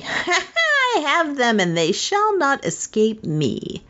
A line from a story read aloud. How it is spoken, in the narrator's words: she gave a spiteful laugh and said triumphantly